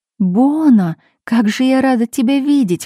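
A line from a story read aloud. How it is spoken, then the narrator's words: Joyful exclamation. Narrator (Russian): воскликнула Марина радостно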